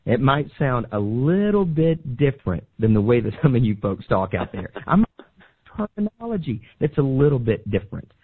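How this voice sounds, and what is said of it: Slight Southern American accent. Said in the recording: “I have a very slight accent ... oh, I love your Southern accent”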